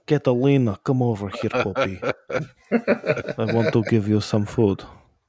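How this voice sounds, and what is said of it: Put-on Russian accent. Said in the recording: “I always talk to her with a Russian accent, Chekhov”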